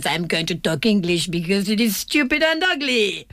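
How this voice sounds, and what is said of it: Ridiculous put-on French accent. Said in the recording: “the most ridiculous French accent ever ... Possibly my accent was even better as well. It was impressive”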